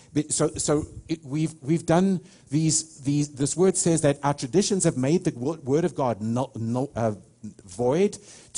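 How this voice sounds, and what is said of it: South African accent. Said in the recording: “I'm a South African ... people would say to me, man, I love your accent”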